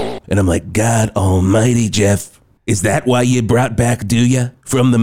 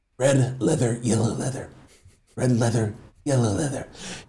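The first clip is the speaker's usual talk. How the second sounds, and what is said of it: Imitates another person's voice. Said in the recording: “he said it in this voice, and I'm going to try to do the voice that he did ... He said it like this.”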